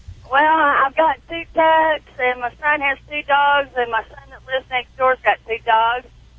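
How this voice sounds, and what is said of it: Southern US accent. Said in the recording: “southern accent”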